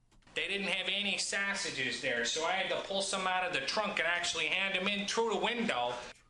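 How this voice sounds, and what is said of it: Strong Chicago accent. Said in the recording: “they're having a hard time with your Chicago accent ... because you don't know how you sound”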